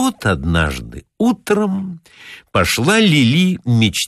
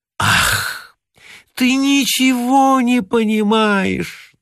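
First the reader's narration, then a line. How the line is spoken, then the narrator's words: Languid moaning. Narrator (Russian): томно стонала Лили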